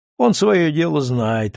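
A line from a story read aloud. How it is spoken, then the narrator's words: Gloomy agreement. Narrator (Russian): мрачно соглашается Валентин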